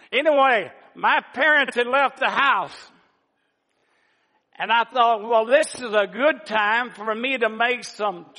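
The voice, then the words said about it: Southern US accent. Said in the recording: “As you can tell, and I know, I don't have to give it away. I'm from the South... I plan on losing this accent very soon”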